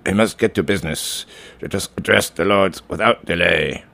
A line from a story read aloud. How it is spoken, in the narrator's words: The Saudi minister grunted